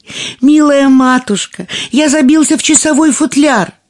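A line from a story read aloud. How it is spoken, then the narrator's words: Thin little voice shouting. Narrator (Russian): тоненький голосок прокричал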